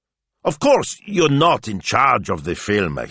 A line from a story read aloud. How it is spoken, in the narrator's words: he snapped